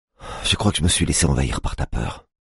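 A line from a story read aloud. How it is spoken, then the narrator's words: Murmuring. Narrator (French): murmure-t-elle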